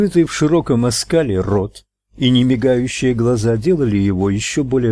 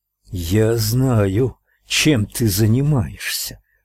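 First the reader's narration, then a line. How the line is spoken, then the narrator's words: Hiss. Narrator (Russian): прошипел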